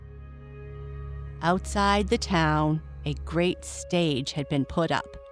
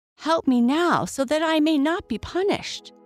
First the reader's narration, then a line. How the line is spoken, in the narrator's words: cried the soldier